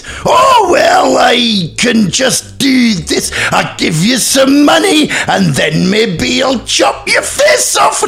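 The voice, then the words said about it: Imitates another person's voice. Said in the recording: “A Ross impression ... Yeah, it's very good.”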